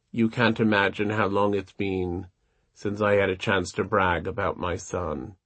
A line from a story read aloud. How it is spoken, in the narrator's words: said quietly